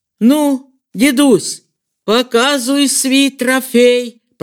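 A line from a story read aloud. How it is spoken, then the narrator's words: Booming rumble. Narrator (Russian): прогудел Дегтяренко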